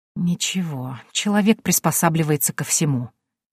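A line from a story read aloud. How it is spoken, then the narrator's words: Whisper. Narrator (Russian): прошептала я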